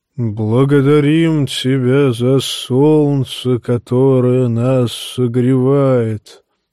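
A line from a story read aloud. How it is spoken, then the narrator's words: Deep booming bass. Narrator (Russian): возгласил Макорро басом, идущим из глубины его массивного торса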